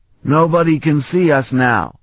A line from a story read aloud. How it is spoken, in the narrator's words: he shouted over the howling wind